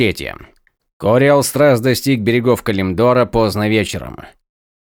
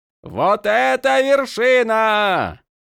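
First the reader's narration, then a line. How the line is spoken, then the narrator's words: Shouted. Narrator (Russian): прокричал Ронин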